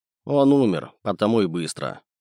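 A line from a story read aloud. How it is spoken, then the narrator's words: Impassive tone. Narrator (Russian): бесстрастным тоном произнес я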